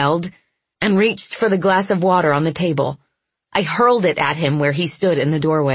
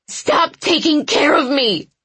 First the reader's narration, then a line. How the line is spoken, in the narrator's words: I screamed